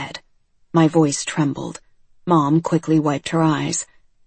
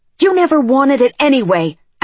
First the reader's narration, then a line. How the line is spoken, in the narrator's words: I shouted